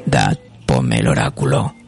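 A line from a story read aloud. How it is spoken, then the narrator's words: Very deep voice. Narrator (Spanish): dice, con una voz muy grave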